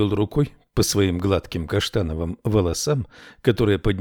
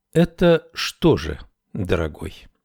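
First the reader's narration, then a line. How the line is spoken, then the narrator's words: Calm reply. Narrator (Russian): спокойно ответила Мэри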